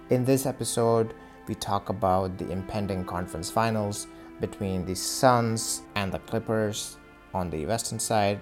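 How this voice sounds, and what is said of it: Indian English accent. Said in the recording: “the largest podcast in an Indian accent.”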